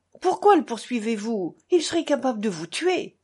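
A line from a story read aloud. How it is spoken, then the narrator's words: Angry exclamation. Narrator (French): s'écria Ivan avec colère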